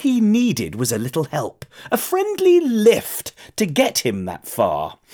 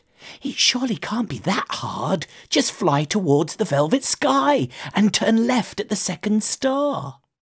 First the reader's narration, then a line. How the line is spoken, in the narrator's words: the moth whispered